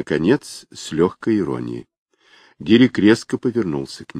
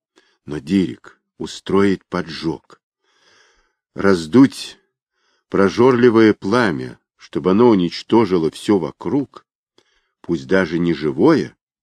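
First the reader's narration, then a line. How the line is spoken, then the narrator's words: Through gritted teeth. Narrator (Russian): Дирик сказал сквозь зубы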